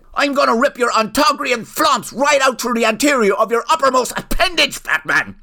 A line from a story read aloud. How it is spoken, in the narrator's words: yelled the wizard